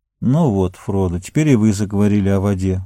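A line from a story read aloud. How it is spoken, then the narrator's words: Sad, smiling. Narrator (Russian): грустно улыбнулся Сэм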